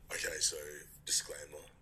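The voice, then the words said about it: Attractive, appealing male voice. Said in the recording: “he has a sexy voice... His voice is fit... his voice is beautiful”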